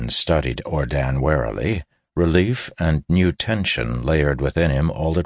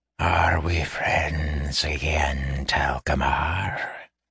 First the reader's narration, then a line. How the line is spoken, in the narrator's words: he hissed, a quietly dangerous note to his voice